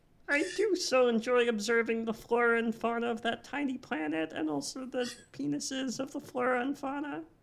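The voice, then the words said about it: Impression of the character Marvin. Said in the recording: “this is a really good Marvin impression”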